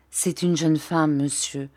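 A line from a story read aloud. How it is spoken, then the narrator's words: Low, grave voice. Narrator (French): dit-il en baissant la voix et en parlant d'un ton grave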